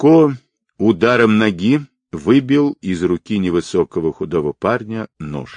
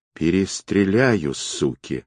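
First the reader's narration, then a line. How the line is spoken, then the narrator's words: Vicious hiss. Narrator (Russian): злобно прошипел он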